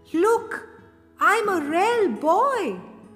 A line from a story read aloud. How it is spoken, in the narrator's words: he cried out